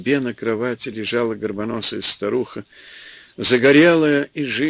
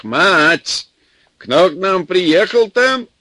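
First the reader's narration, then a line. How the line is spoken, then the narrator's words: Yelling. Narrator (Russian): заорал в сенях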